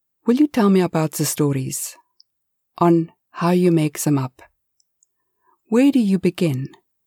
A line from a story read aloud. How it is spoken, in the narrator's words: said